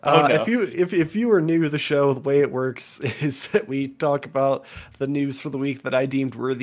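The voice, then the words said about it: Strained, under-the-weather voice. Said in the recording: “I'm a little under the weather ... My voice is already pretty strained after an hour of talking”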